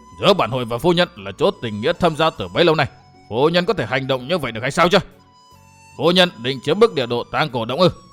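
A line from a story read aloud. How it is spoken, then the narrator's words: Angry. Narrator (Vietnamese): Hội chủ Tư Mã Xanh nhìn lại, nhận ra điệp hồn Trương Mỹ Cô liền giận dữ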